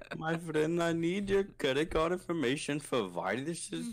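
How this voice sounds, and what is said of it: Unconvincing put-on foreign accent. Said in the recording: “I need to work on that accent better.”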